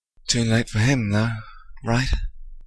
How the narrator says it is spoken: Remus sighed

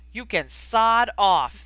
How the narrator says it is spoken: the boy yelled

